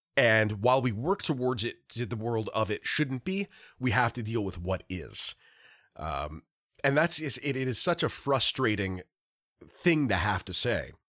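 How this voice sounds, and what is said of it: Hoarse, sick-sounding voice. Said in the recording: “now I have a frog in my throat. ... We're both sick.”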